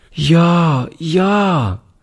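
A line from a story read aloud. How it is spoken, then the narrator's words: Called out, little girl. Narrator (German): rief die Kleine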